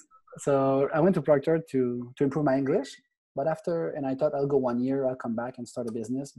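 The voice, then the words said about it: Thick foreign accent in English. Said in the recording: “you can hear my accent. That's quite thick.”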